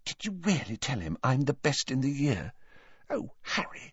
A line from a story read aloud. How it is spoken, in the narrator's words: Hermione turned to Harry with a radiant expression and whispered